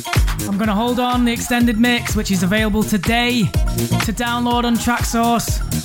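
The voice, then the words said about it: Northern English accent. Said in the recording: “Sounded very northern there, didn't I?”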